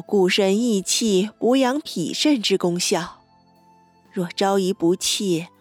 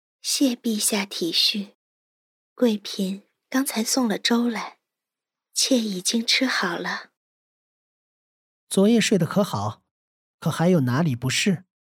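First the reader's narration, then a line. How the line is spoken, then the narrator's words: Gentle, soft. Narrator (Chinese): 林和柔声道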